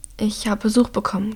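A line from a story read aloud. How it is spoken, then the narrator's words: Croaking. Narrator (German): krächzt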